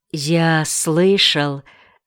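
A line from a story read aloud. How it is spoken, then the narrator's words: Quiet. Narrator (Russian): начал тихо Ринтен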